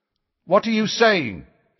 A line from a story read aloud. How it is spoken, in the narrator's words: said very loudly, so that his words echoed all around the stone benches